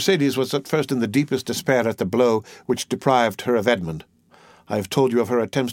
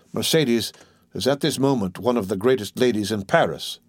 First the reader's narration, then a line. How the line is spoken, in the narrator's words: replied Caderousse